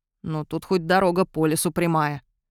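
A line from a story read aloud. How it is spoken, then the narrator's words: Grumbling mutter. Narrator (Russian): пробурчал Фаркаш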